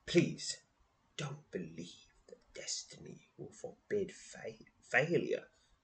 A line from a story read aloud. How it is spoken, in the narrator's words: whispered the voice